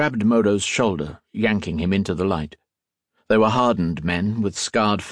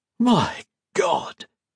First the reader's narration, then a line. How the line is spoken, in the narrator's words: gasped the one holding Modo's shoulder